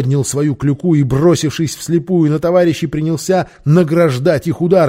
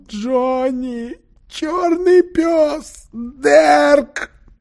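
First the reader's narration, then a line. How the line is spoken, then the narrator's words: Crying voice. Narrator (Russian): Он приговаривая плачущим голосом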